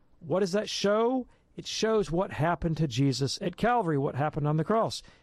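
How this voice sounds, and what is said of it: Hoarse, strained, failing voice. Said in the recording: “I'm losing my voice.”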